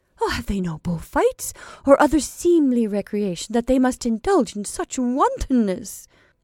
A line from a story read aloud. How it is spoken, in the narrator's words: asked Donna Maria indignantly